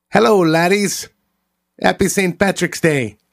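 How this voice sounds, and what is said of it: Rusty put-on Irish accent. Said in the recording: “My Irish accent's a little out of practice.”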